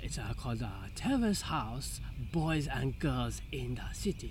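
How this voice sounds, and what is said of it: Pretty good put-on Japanese accent. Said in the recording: “accents out of nowhere ... that was pretty good. That was a pretty good Japanese accent.”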